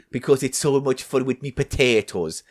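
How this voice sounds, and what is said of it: Exaggerated put-on Irish accent. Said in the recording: “your stupid Irish accent that everyone finds offensive”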